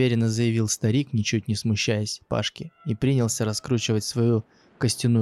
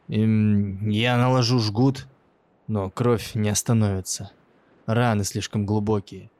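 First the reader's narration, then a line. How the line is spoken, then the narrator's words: Sighing. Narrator (Russian): вздохнул он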